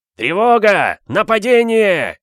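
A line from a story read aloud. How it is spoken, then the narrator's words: Yelling together. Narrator (Russian): Заорали они в голос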